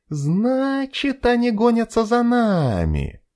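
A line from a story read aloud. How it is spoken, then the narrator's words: Thoughtful drawl. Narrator (Russian): протянула Кэти, что-то мысленно прикидывая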